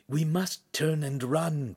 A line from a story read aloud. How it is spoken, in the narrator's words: Pan whispered